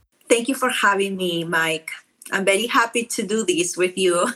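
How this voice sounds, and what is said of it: Strong Peruvian South American accent. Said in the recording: “you sound to me like you have quite a, a strong, uh, maybe South American accent ... I am from Peru, so my accent is very strong”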